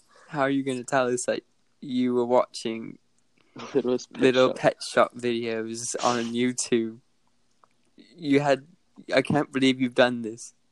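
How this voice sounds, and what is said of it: Deep voice with British accent. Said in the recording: “Why are you turning British now?... he's having a British accent now... it's hard to do a deep voice with just normal accent... You sound so weird”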